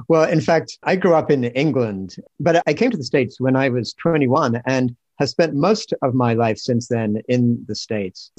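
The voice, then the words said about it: Mixed English accent, sounds New Zealand-like. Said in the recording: “you have this funny accent that is, I'm pretty sure it's not a Berkeley accent ... my accent got sort of mashed up. So now people think I must be from New Zealand or somewhere”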